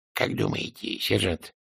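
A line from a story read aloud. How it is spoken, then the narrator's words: Whispered. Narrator (Russian): прошептал Снобби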